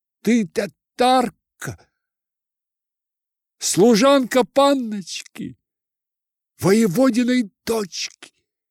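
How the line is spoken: Sudden full-voiced cry. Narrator (Russian): вдруг вскрикнул во весь голос

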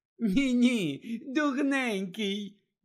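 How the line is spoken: Ringing laugh. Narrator (Ukrainian): дзвінко розсміялася Флер

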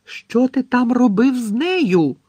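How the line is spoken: Shrieked. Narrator (Ukrainian): заверещала Лаванда Браун

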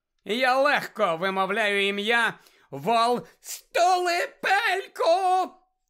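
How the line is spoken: Shriek. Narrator (Ukrainian): заверещала Белатриса Лестрандж

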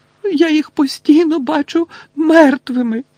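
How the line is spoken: Moaning into shoulder. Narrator (Ukrainian): простогнала місіс Візлі у нього на плечі

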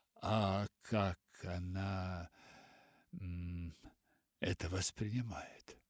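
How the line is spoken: Hoarse question after pained silence. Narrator (Russian): Мистер Пендлтон издал тихий стон, наступило тягостное молчание, затем он хрипло спросил

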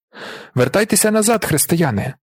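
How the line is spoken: Monk exclaiming. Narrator (Ukrainian): вигукнув чернець

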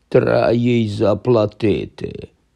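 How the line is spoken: Grumbled from the sofa. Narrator (Ukrainian): буркнув з канапи Гегрід

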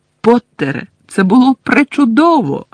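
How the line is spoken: Exclaiming. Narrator (Ukrainian): вигукнула професорка МакГонагел

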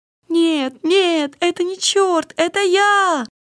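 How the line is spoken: Shouting. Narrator (Russian): кричал

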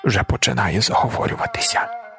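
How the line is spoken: Muttering. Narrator (Ukrainian): пробурмотіла тітка Леньо

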